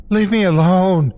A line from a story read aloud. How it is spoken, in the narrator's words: I screamed with the little air left in my chest